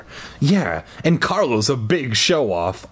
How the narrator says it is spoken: I exclaimed

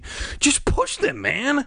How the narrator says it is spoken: Bird pleaded

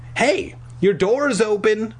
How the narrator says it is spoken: I shouted

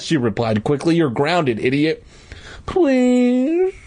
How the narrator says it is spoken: I begged

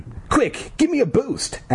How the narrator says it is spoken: Ashley cried

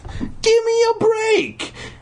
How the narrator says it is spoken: He cried

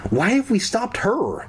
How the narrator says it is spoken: Kara cried

